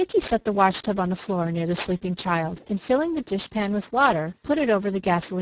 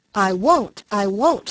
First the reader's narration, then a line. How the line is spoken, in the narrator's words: she cried